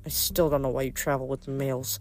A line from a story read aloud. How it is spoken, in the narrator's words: Phoebe grumbled